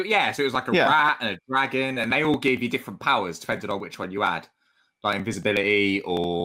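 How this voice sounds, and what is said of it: Usual voice. Nothing is said of it.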